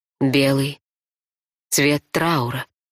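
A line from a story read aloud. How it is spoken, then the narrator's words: Soft whisper. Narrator (Russian): мягко шепнула я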